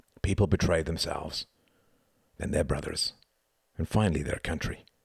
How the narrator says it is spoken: murmured Gunther

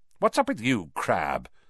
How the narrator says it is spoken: snapped Malfoy

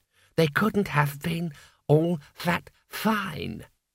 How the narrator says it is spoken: it said calmly

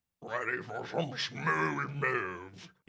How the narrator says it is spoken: he croaks

